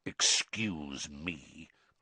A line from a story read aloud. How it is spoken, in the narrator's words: growled Moody